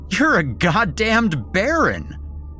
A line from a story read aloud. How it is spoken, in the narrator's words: I shouted, laughing hysterically